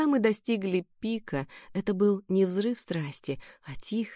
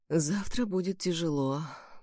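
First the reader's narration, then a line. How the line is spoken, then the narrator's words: Whisper. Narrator (Russian): прошептал он в темноте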